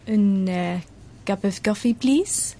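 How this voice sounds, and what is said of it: Put-on French accent. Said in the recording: “my French accent for a long time was a little bit German... I think I've just about passed.”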